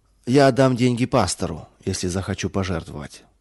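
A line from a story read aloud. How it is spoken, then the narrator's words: Dry reply. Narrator (Russian): Мельник сухо ответил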